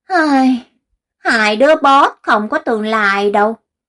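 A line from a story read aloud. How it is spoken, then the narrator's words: Sighing. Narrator (Vietnamese): La Duệ thở dài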